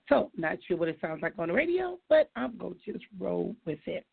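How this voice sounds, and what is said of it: Hoarse, raspy, froggy voice. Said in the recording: “my voice is experiencing a healing... I've been crying, I've been laughing, I've been talking too loud... I'm starting to sound like the little character on the Little Rascal, which was Froggy, because my voice is tore up”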